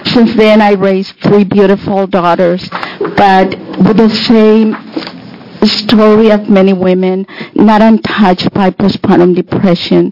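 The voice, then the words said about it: Foreign accent. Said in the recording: “As you can hear my accent”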